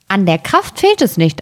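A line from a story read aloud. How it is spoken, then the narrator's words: Plain. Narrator (German): antwortete das Schneiderlein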